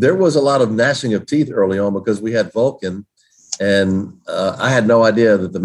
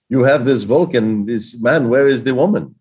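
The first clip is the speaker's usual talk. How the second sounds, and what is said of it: Put-on German accent. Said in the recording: “in their German accent”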